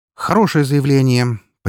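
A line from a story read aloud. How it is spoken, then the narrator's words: Businesslike snort. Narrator (Russian): по-деловому хмыкнул я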